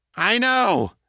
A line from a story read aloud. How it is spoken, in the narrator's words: Steve snapped